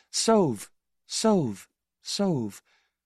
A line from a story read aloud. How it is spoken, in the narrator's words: A voice so close to me that it seems to speak through my body says softly